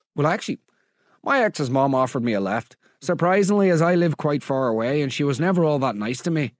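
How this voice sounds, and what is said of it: Put-on Scottish-sounding accent. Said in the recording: “Why is she Scottish now?”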